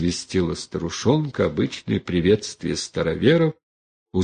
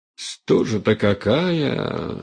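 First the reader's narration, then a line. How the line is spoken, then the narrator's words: Mumbling old woman. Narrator (Russian): шамкала старушонка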